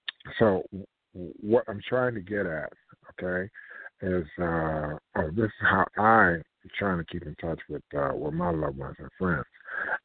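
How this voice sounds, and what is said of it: Slightly hoarse, parched voice. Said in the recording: “My throat getting a little parched... my voice is a little hoarse”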